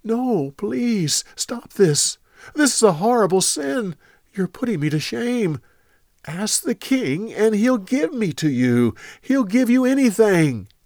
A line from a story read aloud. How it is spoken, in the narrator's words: She begged him